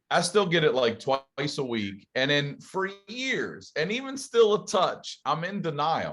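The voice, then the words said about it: Southern American accent. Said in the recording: “What's that Southern accent I'm getting? ... the overwhelming evidence of my accent is beyond there”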